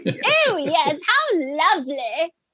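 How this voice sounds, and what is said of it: Posh British woman voice. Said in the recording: “I can't do a Boris impression, so I'm just being a posh bird.”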